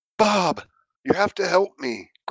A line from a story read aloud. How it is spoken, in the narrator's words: croaked Solid Snake, his voice squeezed to a whisper